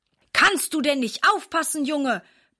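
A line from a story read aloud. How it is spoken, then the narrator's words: Blustered angrily. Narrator (German): poltert er ärgerlich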